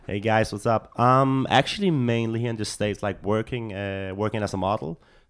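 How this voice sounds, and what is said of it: Speaks with an appealing foreign accent. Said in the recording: “your sexy accent”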